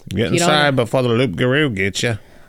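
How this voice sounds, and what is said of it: Put-on Australian accent. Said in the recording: “I don't know why the Australian accent came out.”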